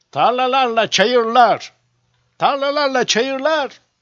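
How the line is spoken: Crowd shouting in unison. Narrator (Turkish): diye bağırıştılar bir ağızdan

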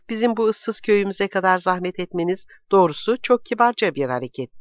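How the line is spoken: Plain. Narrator (Turkish): dedi

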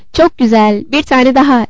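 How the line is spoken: Shouted. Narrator (Turkish): diye bağırdı Levin

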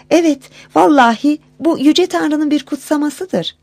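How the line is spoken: Crying out. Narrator (Turkish): diye haykırmış

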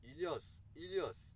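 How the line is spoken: Shouting. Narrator (Turkish): diye bağırdı

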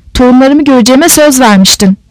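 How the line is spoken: Shout. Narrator (Turkish): diye haykırdı

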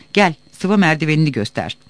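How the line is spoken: Village headman shouting. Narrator (Turkish): Bağırdı muhtar

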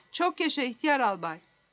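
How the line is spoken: Angry crowd shouting. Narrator (Turkish): Zıpırcıklar öfke dolu bir şekilde bağırıp çağırıyorlardı

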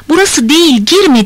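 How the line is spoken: Shout. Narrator (Turkish): diye bağırması duyuluyor

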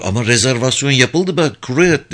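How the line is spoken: Plain. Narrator (Turkish): dedi

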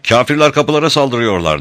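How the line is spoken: Shouted. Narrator (Turkish): diye bağırdı

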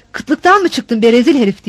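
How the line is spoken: Shouted. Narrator (Turkish): diye bağırdı

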